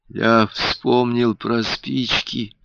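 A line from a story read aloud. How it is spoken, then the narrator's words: Weak voice. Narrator (Russian): слабым голосом сказал Альберт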